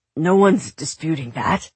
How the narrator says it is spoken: Teddy said, smiling tightly

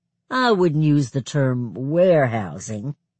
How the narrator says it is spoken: Pastor Rucker said in a condescending tone

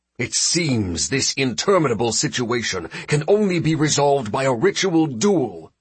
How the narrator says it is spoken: the regent roared, frightfully upset by the princess's silence

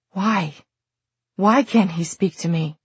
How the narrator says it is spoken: he said again, and then in a half whisper

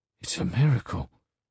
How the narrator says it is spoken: he said quietly, as though it was a secret

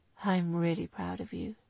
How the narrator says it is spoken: he added softly

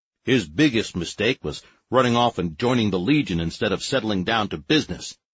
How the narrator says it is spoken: growled Fool, only half listening

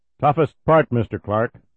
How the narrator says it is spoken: Irvin said loudly

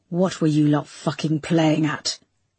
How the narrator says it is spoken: he hissed

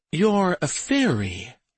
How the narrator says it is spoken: she breathed

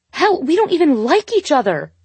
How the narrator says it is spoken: she yelled

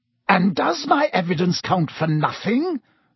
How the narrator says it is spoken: snarled Snape

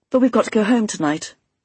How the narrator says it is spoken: I said quickly

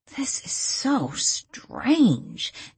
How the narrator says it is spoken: Danielle muttered

